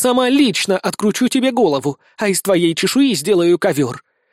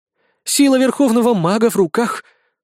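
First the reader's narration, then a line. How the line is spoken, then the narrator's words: Princess's horrified gasp. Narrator (Russian): с ужасом выдохнула принцесса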